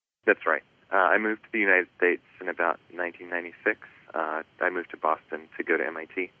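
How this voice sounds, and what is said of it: Faded New Zealand accent. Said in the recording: “you've got a New Zealand accent ... it's quite faded by now”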